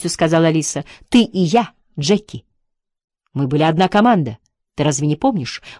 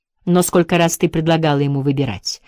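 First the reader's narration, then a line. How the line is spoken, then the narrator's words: Plain. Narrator (Russian): спросил Джек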